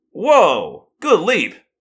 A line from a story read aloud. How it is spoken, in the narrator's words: Marco exclaimed